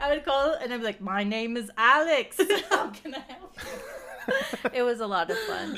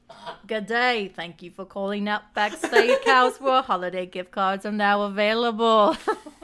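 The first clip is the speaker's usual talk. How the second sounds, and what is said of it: Put-on Australian accent. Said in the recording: “talk in an Australian accent ... That's so good.”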